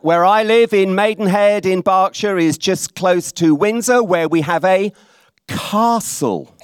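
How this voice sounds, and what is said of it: Speaks with an accent. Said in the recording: “get used to my voice. I'm told in places like this that I have an accent.”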